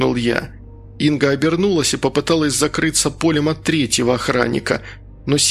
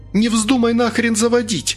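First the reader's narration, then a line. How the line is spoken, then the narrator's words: Yelling. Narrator (Russian): вопила Инга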